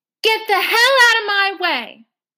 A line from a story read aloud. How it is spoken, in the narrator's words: you yell like this